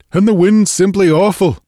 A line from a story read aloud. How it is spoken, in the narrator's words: he cried